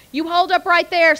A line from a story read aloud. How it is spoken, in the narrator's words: Speaks yelled belligerently